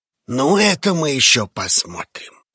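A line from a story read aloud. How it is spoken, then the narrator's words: Growl. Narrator (Russian): прорычал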